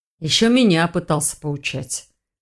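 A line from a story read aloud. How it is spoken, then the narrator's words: Dragon's snort. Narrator (Russian): хмыкнул дракон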